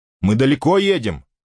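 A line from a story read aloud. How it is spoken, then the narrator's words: Shout. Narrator (Russian): крикнул он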